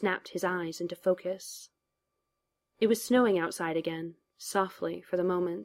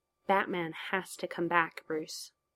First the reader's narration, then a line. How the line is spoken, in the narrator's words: murmured